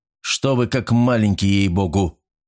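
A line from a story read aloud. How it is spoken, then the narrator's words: Rude interruption. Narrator (Russian): грубо перебил его Старпом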